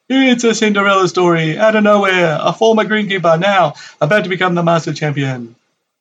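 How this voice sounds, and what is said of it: Imitates another person's voice. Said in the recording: “That's the best impersonation I could muster up.”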